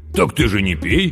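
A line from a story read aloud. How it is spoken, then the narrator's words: Giggling over the phone. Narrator (Russian): хихикнул в трубку Сашка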